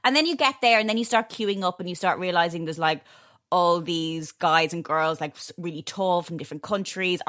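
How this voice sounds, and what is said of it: Irish accent. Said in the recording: “I have an Irish accent.”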